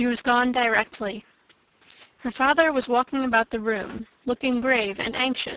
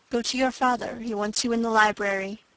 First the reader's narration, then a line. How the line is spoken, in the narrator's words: said in a whisper